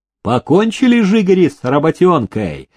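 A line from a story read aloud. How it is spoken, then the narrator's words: Cheerful question. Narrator (Russian): весело спросил селезень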